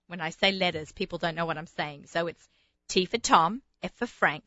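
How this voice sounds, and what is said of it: Strong regional accent. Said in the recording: “say it slowly because of my crazy accent.”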